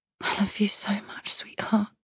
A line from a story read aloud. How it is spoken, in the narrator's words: I whisper